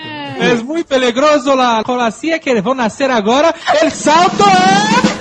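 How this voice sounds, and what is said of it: Put-on Spanish accent. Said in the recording (Portuguese): “Sempre tem um sotaque de espanhol.”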